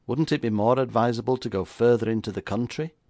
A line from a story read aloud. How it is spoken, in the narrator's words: Doyle laughed harshly